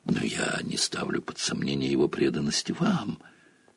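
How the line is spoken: Reluctant, forced out. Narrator (Russian): неохотно выдавил из себя профессор МакГонагалл

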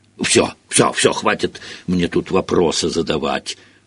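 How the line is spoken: Grumbling. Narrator (Russian): проворчал Хагрид

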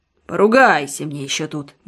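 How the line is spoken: Muttered by medic. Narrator (Russian): бормочет фельдшер

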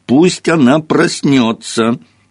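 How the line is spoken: Whiny tearful tone. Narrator (Russian): произнес он, плаксивым тоном

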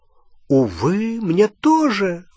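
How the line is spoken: Exclamation. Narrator (Russian): воскликнул Треверс

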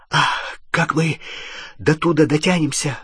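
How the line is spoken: Breathed out. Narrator (Russian): выдохнул Рон

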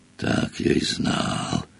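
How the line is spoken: Whisper. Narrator (Russian): прошептал Хагрид

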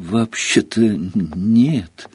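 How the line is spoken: Timid, forced out. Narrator (Russian): робко выдавил из себя Гарри

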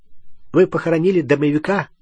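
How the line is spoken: Suddenly sharp. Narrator (Russian): сказал неожиданно резко

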